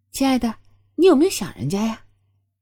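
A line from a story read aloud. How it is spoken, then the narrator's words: Sweet, tender. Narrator (Chinese): 双月……嫣然一笑，温柔道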